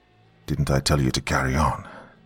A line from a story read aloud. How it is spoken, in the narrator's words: He snarled